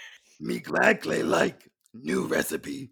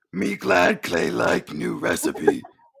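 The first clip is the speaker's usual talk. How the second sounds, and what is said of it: Simple-speaking cookie monster character voice. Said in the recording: “you're doing that voice.”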